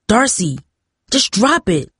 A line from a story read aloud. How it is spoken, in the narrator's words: he snapped